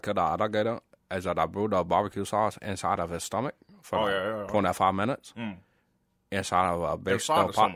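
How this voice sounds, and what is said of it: Swampy bayou character voice. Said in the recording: “That's my Swampy John impression. ... Little bit of Swampy John. Sound like it's from the bio.”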